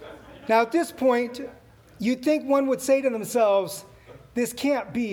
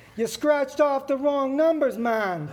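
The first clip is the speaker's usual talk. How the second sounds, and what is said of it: Poor put-on Jamaican accent. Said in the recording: “sounded less like ... and more like someone from Jamaica ... that's a terrible Jamaican accent”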